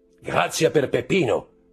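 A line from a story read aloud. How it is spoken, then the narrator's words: Roused sudden shout. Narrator (Italian): gridò Andrea, del tutto ridestato dallo stato di torpore in cui sembrava essere immerso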